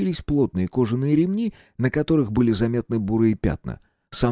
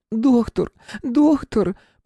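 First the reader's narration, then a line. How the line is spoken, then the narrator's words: Woman's sobbing lament. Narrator (Russian): причитал женский голос, прерывающийся от рыданий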